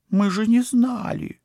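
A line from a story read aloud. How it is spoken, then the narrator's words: Girl's plaintive exclamation. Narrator (Russian): жалобно воскликнула девушка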